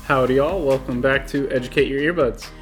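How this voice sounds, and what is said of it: Put-on Texan accent. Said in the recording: “bringing up the Texan speak”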